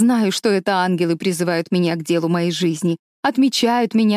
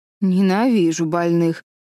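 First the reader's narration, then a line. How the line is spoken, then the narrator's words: Grumbling. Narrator (Russian): пробурчала Мэтс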